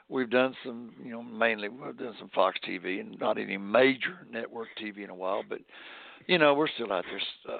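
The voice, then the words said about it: Hoarse, raspy voice. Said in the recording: “hoarse today ... I'm a little raspy”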